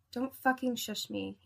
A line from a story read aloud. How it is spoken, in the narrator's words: he whispered